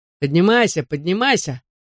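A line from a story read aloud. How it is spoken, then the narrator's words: Mocking mimicry. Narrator (Russian): насмешливо передразнил он их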